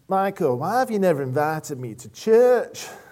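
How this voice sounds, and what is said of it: Put-on Yorkshire accent. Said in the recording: “that was a Yorkshire accent.”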